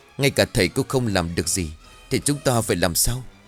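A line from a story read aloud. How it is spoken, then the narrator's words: Stammering. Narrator (Vietnamese): Cô Chiều liền lắp bắp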